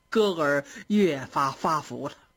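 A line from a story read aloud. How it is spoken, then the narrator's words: Smiling. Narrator (Chinese): 张道士又跟贾母笑着说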